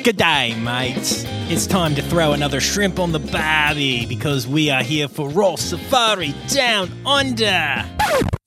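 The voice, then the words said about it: Bad put-on Australian accent. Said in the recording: “I know my Australian accent is horrible.”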